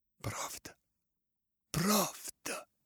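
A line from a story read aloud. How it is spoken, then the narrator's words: Mournful moaning voice. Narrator (Russian): Стенание изнеслось из уст его, скорбным голосом произнес он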